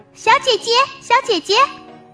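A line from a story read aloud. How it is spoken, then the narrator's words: Calling out. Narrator (Chinese): 达达就叫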